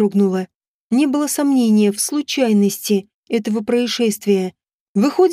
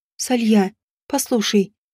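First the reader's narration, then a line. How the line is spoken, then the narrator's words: Quiet. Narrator (Russian): тихо сказала я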